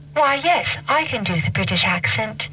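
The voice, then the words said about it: Put-on British accent. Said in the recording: “Can you not do the British accent, lady?”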